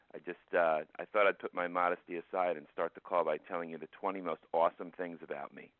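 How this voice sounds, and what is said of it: Voice sounds a little off. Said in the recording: “Just want to apologize for my voice ... I know it sounds a little off”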